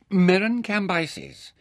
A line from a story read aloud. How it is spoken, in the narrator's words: said sternly